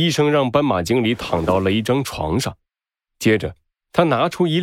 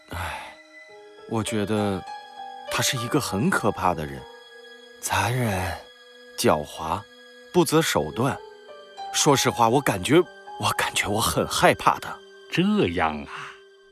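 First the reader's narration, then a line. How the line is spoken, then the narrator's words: Soft quiet voice. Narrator (Chinese): 他轻声地说道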